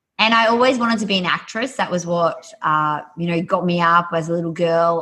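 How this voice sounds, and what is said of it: Australian accent. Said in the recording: “my accent, I'm Australian”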